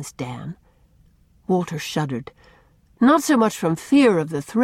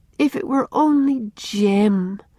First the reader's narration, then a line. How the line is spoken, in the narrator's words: she sighed to Una